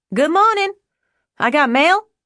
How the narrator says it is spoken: Deborah yelled straight into the receiver

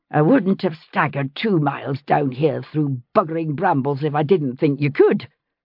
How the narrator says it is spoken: she snapped

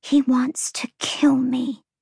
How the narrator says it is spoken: Lahaba whispered

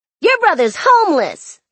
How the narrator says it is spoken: they shouted, giggling

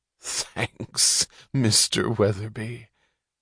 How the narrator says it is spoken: She said, torn by laughter

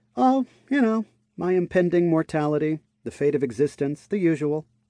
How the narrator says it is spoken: Clover chuckled

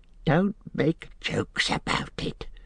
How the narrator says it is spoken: hissed Gollum

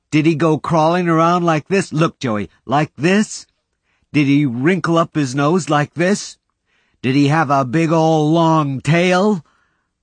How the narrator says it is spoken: Willard was helpless with laughter

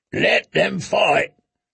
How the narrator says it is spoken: grunted Strong Belwas, who had once been a champion in the pits

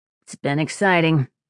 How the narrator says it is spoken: Sparrow said in a dry tone

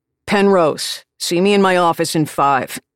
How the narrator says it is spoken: he barks

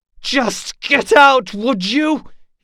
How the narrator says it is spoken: He shouted

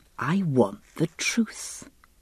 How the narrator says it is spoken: he said softly

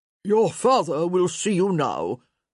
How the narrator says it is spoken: Guilfoyle intoned

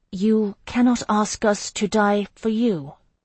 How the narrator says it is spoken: I said slowly

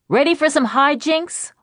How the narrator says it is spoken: I shouted

